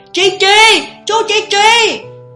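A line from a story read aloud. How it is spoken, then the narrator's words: Woman shouting. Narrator (Vietnamese): bà hét lên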